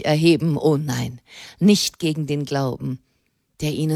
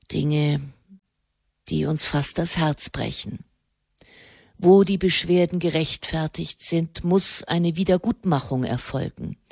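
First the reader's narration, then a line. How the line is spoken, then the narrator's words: Quiet speech. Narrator (German): sprach er leise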